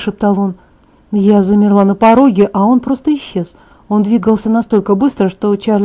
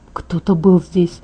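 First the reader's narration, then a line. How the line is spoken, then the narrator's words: Whisper in the ear. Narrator (Russian): прошептал он мне на ухо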